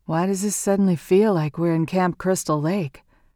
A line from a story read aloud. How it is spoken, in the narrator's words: Limoncello asked